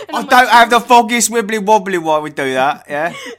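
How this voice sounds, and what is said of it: Put-on British accent. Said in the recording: “how come you guys just randomly like will make a British voice with no context?”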